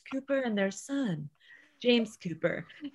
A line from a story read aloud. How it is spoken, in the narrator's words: he said in his smooth, sympathetic voice